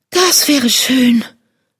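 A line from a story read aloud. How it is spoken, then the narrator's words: Sighing lion cub. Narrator (German): seufzte Löwenjunges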